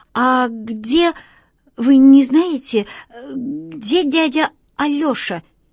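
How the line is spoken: Slightly stuttering question. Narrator (Russian): Немного заикаясь, спросил

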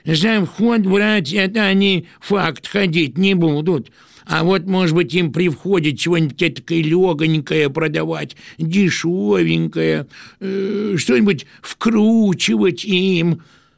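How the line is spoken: Nasal voice of priest. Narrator (Russian): Какой-нибудь этакой курносый поп сказал своим гнусавым голосом

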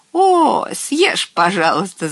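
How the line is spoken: Little witch laughing. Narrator (Russian): засмеялась маленькая баба-яга

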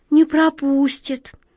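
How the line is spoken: Dejected voice. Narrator (Russian): упавшим голосом повторила Глазастик

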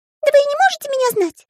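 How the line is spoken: Squeaky voice. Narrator (Russian): пропищал Пик

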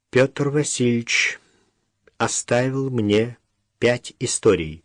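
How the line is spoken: Slow speech. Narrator (Russian): проговорила Даша медленно

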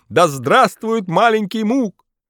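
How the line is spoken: Excited loud crowd shouting. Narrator (Russian): Зрители пришли в восторг, громко кричали

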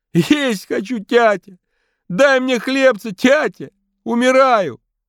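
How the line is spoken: Terrible-voiced scream. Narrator (Russian): И кричит страшным голосом Фима

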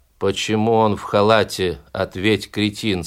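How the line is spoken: Plain. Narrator (Russian): спросили мозги

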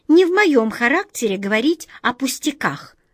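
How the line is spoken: Irritated squeak. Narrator (Russian): с раздражением пропищала мышка

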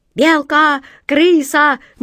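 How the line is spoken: Ragged group shouting. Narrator (Russian): нестройно закричали пираты

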